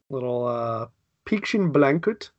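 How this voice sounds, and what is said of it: Bad put-on German accent. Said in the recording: “that was a bad German accent.”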